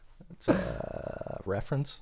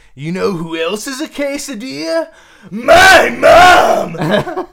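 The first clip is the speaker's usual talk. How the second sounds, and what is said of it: Cartoon character impression. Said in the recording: “I was doing an impression of Muscle Man.”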